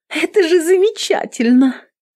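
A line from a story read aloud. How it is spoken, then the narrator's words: Joyful girl. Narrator (Russian): радостно сообщила девушка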